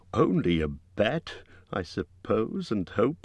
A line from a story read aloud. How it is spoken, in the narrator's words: he said miserably